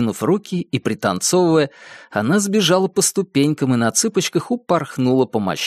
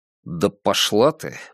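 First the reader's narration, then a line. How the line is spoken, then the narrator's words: Gruff mutter. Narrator (Russian): буркнул он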